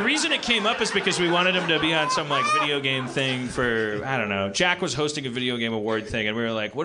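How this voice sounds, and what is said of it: Usual voice. Nothing is said of it.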